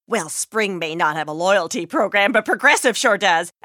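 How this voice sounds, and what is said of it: Chatty weather-obsessed neighbor character voice. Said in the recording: “my impression of your neighbor who really likes to talk about the weather”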